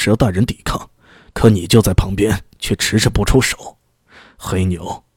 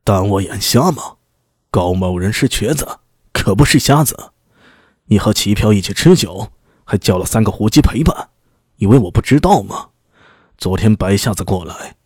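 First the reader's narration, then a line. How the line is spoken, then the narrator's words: Furious roar in ear. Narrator (Chinese): 高大龙脸上带着血，趴在黑牛的耳边，大声吼道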